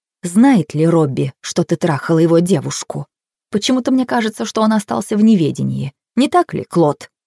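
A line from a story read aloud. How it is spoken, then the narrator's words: Whisper. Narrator (Russian): добавила она шепотом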